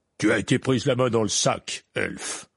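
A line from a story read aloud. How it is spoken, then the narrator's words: Growling. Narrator (French): gronda M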